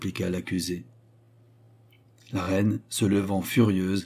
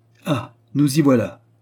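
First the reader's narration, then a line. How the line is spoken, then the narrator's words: Exclaimed by a queen. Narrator (French): s'écria la reine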